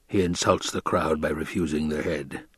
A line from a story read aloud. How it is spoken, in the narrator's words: the Baron muttered